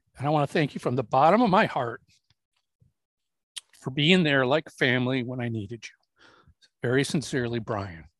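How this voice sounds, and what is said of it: Choked-up, emotional voice. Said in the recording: “you can tell I'm getting choked up here”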